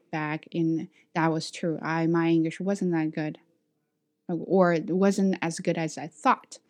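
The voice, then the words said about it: Non-native English accent. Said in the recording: “my accent is not perfect. That's because I'm not a native speaker.”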